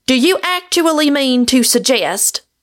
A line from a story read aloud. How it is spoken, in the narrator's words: he cried